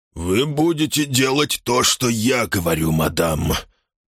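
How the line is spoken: Weak mumble. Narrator (Russian): пробубнил Хэксби слабым голосом

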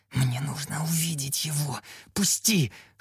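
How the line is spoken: Whispered plea. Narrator (Russian): шепотом взмолился я

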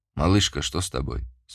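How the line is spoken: Plain. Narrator (Russian): спросил Яр

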